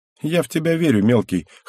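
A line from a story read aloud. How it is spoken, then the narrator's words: Amused snort. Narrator (Russian): хмыкнула Шина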